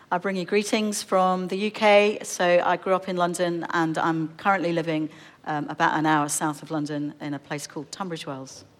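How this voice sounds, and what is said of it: British accent from London. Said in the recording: “You might be able to tell from the accent, it's been a bit of a journey to get here”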